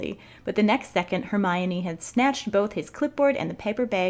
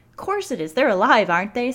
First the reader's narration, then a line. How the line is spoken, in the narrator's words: said Fred angrily